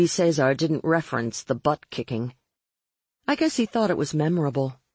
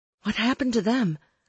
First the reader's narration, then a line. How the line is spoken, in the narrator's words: I panted